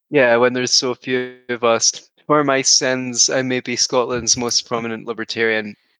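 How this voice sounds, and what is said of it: Scottish accent. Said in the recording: “As you can tell by the accent, ... is Scottish.”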